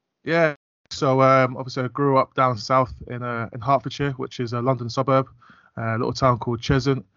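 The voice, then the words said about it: English accent, not northern. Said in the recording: “you haven't got a whole accent, you haven't got a northern accent.”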